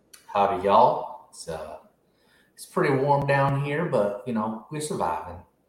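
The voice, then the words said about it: Texas accent. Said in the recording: “I see the Texas accents coming on”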